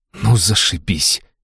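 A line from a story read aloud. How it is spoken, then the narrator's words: Indignant exhale. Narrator (Russian): выдохнула Алиса, не скрывая своего негодования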